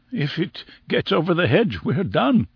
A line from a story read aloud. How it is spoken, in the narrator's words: said Summerlee, his voice crackled into a nervous laugh